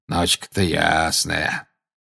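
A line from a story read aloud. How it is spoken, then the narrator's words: Grumbling. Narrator (Russian): проворчал Грюм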